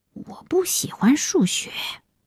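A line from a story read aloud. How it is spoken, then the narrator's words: Very quiet. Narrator (Chinese): 她很小声地说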